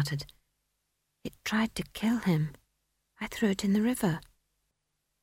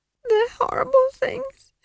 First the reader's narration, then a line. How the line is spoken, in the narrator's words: Esk sobbed